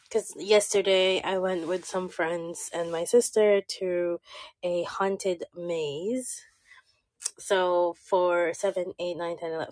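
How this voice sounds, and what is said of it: Hoarse, strained lost voice. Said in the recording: “hear it from my voice. Last week I was sick. ... I did lose my voice ... for four hours, I was screaming my head off”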